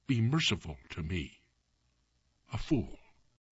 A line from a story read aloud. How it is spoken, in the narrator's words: the king ... murmured low